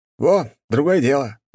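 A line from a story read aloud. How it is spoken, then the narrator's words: Exclaiming. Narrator (Russian): воскликнул Николай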